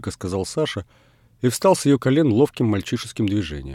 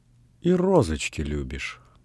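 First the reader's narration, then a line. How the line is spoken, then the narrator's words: Tender, ringing, suppressed laughter. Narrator (Russian): нежно спросила Людмила, и звонкий ее голос вздрагивал от скрытого смеха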